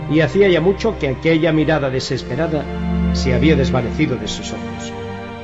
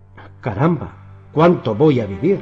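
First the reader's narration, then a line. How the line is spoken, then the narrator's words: Exclaimed. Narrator (Spanish): exclamó Tom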